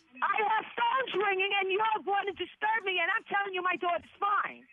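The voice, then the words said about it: Angry yelling. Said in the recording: “stop yelling”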